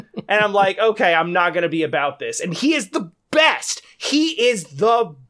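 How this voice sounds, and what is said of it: Usual voice. Nothing is said of it.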